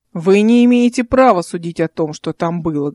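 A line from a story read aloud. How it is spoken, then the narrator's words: Menacing council member. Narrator (Russian): грозно сказал один из совет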